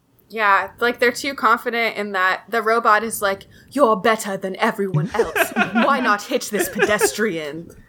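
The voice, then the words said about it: Robotic voice impression. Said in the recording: “that was a good impression of that robot.”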